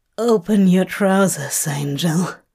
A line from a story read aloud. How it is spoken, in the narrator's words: rasps